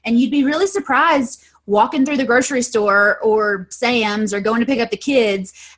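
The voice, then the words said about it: Mild Southern American accent. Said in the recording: “I thought I heard a little accent there. ... I speak very fluent redneck.”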